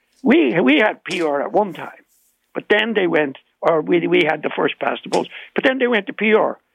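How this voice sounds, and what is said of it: Irish accent. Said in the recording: “you can hear my Irish accent”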